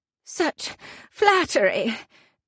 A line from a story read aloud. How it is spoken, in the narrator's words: I manage to gasp out